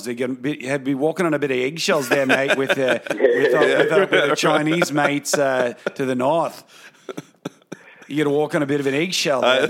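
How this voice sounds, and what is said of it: Put-on Australian accent. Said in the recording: “Australian people ... talking about these world events in that accent”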